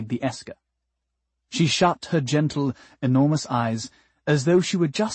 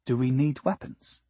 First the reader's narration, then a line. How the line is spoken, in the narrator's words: Decibel said, softly